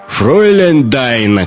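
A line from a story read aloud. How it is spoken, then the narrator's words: Distant shout. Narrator (Russian): крикнул из-за столика долговязый Хонор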